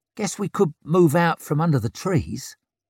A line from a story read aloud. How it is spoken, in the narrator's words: muttered Flick